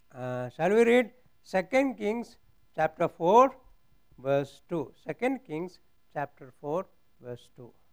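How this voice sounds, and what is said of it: Strong non-native English accent. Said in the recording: “my language is not good... And my accent also very poor.”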